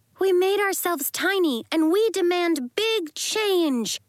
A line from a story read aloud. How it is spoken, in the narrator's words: shouted Marigold